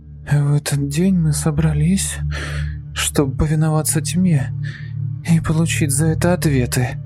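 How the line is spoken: Hoarse with excitement. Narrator (Russian): раздается хрипло от волнения голос Лизы

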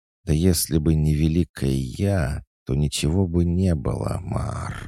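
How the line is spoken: Sighing cat. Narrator (Russian): вздохнула кошка

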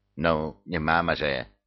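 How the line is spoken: Angry mutter. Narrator (Russian): сердито буркнул ежик

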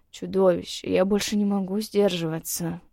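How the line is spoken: Growl. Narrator (Russian): Он рыкнул

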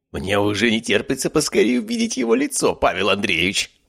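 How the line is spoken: Exclaiming. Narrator (Russian): воскликнул Биркин

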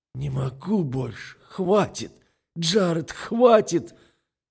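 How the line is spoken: Desperate sobbing. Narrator (Russian): Отчаянно всхлипывает Мэл

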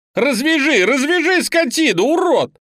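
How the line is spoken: Frenzied screaming. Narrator (Russian): Леня орал так, будто в него вселились бесы

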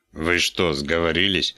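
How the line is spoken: Angry bark. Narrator (Russian): рявкнул

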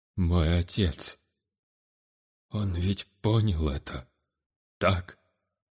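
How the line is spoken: Dejected, holding back tears. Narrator (Russian): Упавшим голосом спросил Шахирец, пытаясь сдержать рвущиеся наружу слезы

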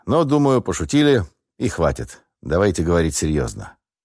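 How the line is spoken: Calm reply. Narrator (Russian): спокойно ответил я

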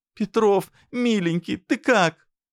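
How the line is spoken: Stammering through sobs. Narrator (Russian): заикалась Наташка сквозь рыдания

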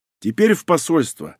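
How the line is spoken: Joyful. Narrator (Russian): радостно сообщил

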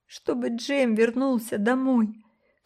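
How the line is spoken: Sobbing. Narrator (Russian): всхлипывая, ответил Брюс

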